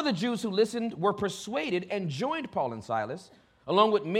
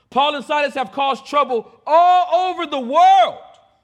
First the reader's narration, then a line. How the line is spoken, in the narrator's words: shouted